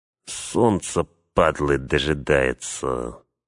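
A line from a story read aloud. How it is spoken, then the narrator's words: Through gritted teeth. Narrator (Russian): процедил один из охранников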